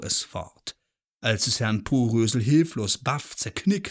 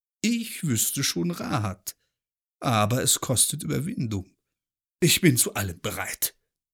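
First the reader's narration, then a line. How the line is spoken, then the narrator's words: Groaned. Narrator (German): stöhnte Porösel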